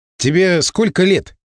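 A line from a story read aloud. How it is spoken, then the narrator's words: Plain. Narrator (Russian): спросил я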